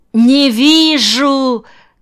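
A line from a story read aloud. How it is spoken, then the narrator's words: Shouted. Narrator (Russian): крикнул Сашка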